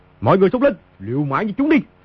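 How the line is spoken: Furious loud shout. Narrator (Vietnamese): Quyền Trinh hai mắt đỏ ngầu quát lớn

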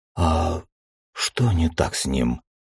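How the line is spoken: Quiet question. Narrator (Russian): Тихо спросила Тучка

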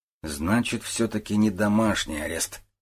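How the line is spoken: Muttered. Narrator (Russian): пробормотал Гуров

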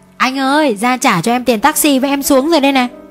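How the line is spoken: Cheerful calling. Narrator (Vietnamese): hớn hở gọi tôi

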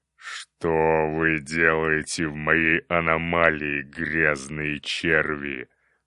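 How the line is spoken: Menacing demon roar. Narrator (Russian): Грозно зарычал вождь демонов огня

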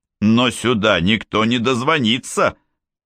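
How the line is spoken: Irritated. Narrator (Russian): раздраженно сказал он

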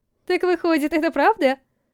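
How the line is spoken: Laughing. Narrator (Russian): Засмеялась Анита

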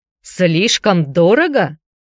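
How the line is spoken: Shouted. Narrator (Russian): крикнул он

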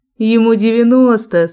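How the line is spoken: Laughing. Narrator (Russian): смеялась я

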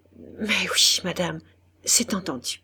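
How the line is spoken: Stammering, choked with emotion. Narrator (French): Il balbutia, la voix coupée par l'émotion

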